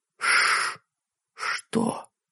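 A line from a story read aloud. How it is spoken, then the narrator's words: Whispered. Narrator (Russian): прошептала Сэнди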